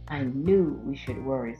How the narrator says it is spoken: said PJ

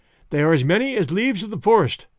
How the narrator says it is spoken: cried one of the women, in attempting to explain the enemy's force

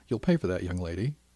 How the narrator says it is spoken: her mother laughed

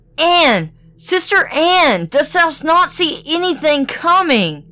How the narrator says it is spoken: replied his wife, and then she cried

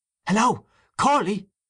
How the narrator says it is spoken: he cried again

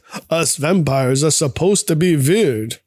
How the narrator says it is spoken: Peter says with an accent

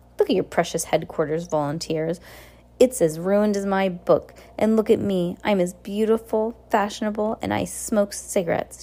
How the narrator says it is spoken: said, and laughed out loud

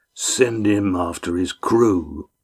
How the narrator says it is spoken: said Arnib, coldly

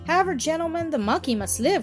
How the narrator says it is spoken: cried Jack, a little maliciously

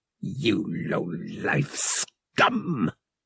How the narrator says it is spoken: Shrike spat

